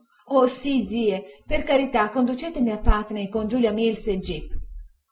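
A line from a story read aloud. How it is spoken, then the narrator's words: Tearful exclamation. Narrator (Italian): Dora, piangendo, esclamò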